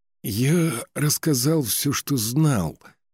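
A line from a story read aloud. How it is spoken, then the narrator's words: Guilty mumbling. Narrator (Russian): виновато промямлил Сигтрюг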